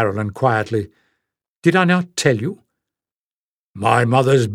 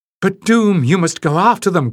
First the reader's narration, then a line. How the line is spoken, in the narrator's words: cried Shan